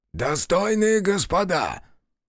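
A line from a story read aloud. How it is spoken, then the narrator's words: Hoarse shout. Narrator (Russian): хрипло крикнул он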